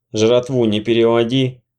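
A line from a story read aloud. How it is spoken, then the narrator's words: Calm. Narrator (Russian): спокойно сказал нищеброд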